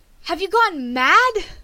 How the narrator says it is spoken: she exclaimed

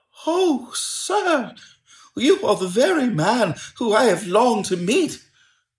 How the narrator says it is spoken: cried the little man, with quivering fingers

